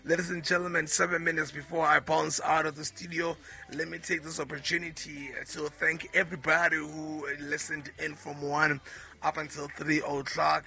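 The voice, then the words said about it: Slightly hoarse, congested voice. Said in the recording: “Please do excuse my voice. I think I'm coming down with a young cold.”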